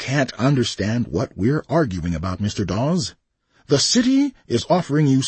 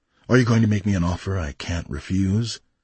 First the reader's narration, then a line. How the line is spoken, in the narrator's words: Fenner sighed